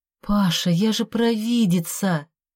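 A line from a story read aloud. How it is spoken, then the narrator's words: Moaning. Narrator (Russian): простонала я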